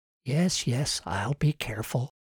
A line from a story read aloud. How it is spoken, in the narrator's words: she whispered to the jar in her pocket